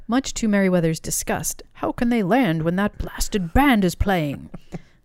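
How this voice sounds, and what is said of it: Imitates a character's voice. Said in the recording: “my Meriwether impression”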